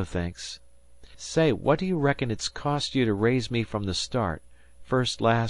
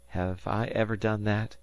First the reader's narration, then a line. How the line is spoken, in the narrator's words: said Harvey uneasily